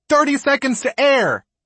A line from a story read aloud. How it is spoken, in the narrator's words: We hear someone shout